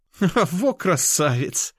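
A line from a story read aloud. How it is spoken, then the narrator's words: Laughing. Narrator (Russian): смеялась Анюта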